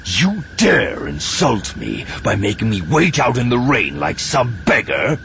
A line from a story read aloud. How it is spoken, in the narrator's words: He spat